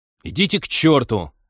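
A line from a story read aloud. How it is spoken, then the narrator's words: Loud snapping retort. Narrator (Russian): громко огрызнулся Тед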